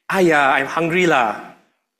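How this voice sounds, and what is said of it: Singaporean accent, Singlish phrasing. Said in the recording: “your ears suddenly perk up when you hear the Singaporean accent. When you hear someone say”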